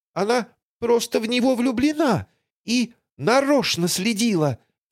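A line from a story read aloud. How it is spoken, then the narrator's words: Squeaked. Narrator (Russian): пискнула Тося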